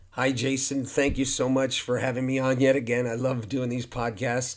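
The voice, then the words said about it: Slightly hoarse voice. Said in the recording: “my voice is a little hoarse, truly just from talking nonstop ... relaxing my voice ... to get my voice back”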